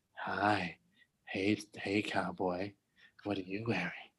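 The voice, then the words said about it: Flirty seductive put-on voice. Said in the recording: “do an OnlyFans of voice,”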